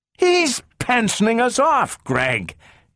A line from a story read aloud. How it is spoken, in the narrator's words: yelled Donovan